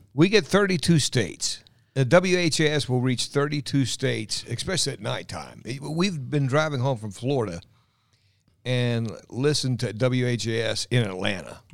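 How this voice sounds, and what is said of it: Polished radio announcer voice. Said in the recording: “Listen to this radio voice.”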